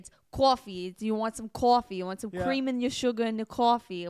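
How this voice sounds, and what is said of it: Put-on Long Island accent. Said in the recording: “do the Long Island voice. My wife has got the Long Island accent.”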